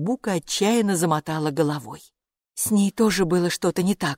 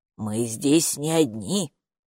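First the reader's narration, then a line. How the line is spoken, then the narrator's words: Muttering doorkeeper. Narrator (Russian): пробормотала привратница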